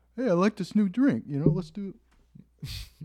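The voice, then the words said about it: Imitates another person's voice. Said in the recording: “I've heard stories about Shaq ... That's my impression.”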